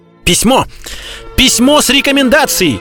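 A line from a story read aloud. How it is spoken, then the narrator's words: Shouting. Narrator (Russian): кричал Д'Артаньян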